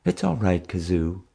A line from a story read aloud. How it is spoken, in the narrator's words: Mom cooed softly